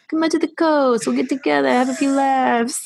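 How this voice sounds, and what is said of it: Put-on New York accent. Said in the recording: “Bravo on your New York accent”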